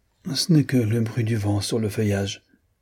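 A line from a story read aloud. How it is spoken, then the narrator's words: Faint voice. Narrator (French): dit-elle d'une voix faible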